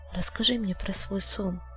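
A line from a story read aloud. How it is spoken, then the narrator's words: Trembling request. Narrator (Russian): Дрожащим голосом она попросила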